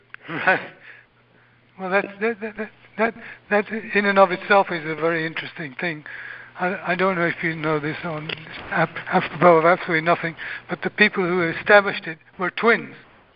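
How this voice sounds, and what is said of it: Quiet-spoken English accent. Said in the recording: “He's an English accent. He's from the UK. ... he doesn't talk very loud”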